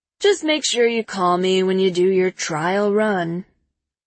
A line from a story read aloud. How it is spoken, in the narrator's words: Peter says, yawning